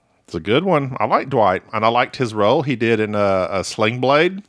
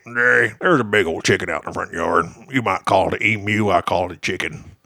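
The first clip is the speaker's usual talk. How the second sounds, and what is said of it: Sling Blade-style drawling imitation. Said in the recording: “my imitation of your father is pretty much a Sling Blade”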